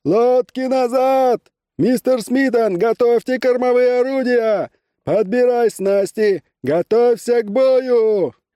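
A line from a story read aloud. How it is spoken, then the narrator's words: Thin high-pitched shout. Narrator (Russian): вдруг закричал своим тонким высоким голосом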